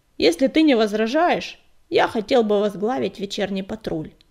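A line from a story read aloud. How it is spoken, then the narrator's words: Deep bass voice. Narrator (Russian): пробасил белоснежный воин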